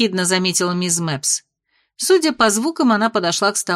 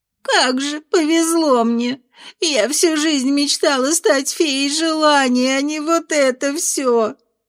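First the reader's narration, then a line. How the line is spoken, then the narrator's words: Sobbing old woman. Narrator (Russian): всхлипнула старушка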